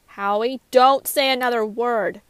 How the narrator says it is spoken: Carlton shouted

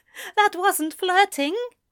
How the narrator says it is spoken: Eliza said with a giggle

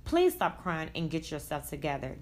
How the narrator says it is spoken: Jay said in a calm tone

